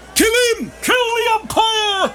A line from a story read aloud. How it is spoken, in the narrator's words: shouted someone in the stand